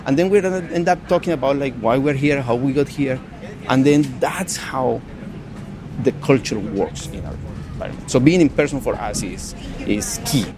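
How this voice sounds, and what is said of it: Colombian Spanish accent in English. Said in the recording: “somebody hears my accent. They're like, oh, you're from Colombia.”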